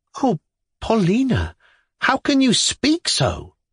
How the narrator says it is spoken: I exclaimed reproachfully

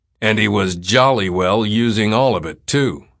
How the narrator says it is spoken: the policeman said savagely

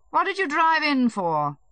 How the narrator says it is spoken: he said to him dryly

